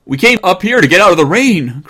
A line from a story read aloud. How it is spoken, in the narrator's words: cried Jimmy